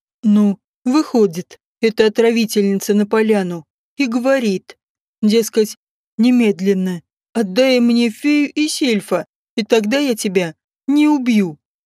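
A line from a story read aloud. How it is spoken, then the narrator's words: Laughing storytelling. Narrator (Russian): смеясь, рассказывал Лютик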